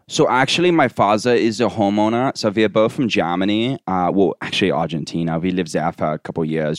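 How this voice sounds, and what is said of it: Put-on foreign accent, American still audible. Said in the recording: “practice the accent more. I'm not quite there. ... You can still hear American in it.”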